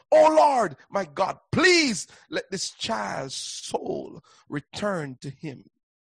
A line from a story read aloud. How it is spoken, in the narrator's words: cried out to the Lord